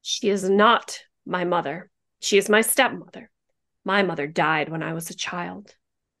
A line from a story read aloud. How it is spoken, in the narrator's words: Lizzie states coldly